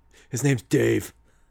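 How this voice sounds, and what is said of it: Imitates Batman's voice. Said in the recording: “did the Batman voice”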